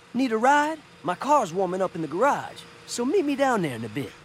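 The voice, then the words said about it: Unconvincing jazz voice. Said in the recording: “some random guy who does not know how to do a jazz voice”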